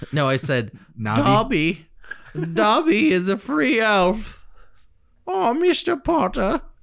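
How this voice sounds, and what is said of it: Poor house-elf character voice. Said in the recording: “That's not a very good impression.”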